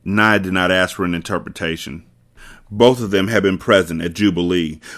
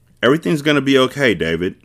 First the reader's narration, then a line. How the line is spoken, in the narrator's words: Naya said